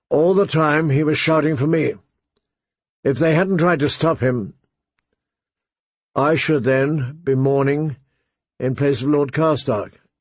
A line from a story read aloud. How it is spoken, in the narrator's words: Catelyn said